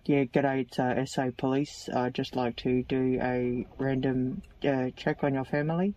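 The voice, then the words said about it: Put-on male voice. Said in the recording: “I put on a male voice.”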